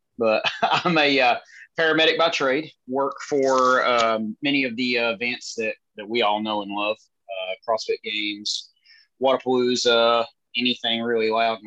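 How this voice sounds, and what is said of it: Rural country American accent. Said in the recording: “I'm a country bumpkin ... I guess you could hear by my voice, I'm a bit hickish”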